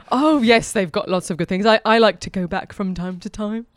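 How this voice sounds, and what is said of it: Put-on British accent. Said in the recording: “you have like a British accent”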